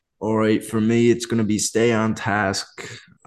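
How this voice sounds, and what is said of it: Put-on Australian accent, slipping into American. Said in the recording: “I don't know how to say it in Australian ... I think that was actually a really good accent. ... It was better than I expected. ... Some of the words are really good. Some not so good. He kept slipping into American.”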